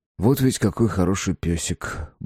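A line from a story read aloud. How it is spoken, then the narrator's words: Muttered under breath. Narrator (Russian): буркнул себе под нос Марк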